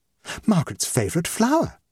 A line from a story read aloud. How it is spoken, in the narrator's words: exclaimed Mrs